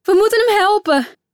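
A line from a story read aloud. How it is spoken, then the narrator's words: Calling out. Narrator (Dutch): riep Lizzie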